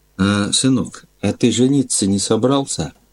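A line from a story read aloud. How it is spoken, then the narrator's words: Quiet private question. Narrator (Russian): он тихо наедине меня спросил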